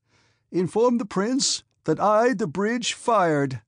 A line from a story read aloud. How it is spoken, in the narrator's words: said the colonel triumphantly and gaily